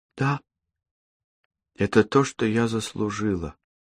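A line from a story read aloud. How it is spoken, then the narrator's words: Whisper. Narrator (Russian): прошептала она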